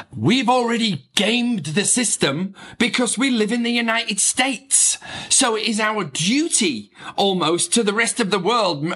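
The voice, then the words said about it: Broad English accent. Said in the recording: “I say that with a very broad English accent”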